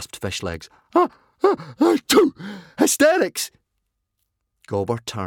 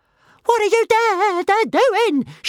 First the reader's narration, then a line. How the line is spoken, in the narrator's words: shrieked Toothless